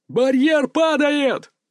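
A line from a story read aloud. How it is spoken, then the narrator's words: Shout. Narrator (Russian): крикнул кто-то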